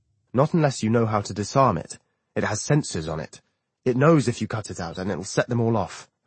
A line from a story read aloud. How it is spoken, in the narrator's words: Ernie says